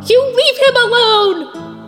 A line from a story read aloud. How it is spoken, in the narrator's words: Sansa screamed at her sister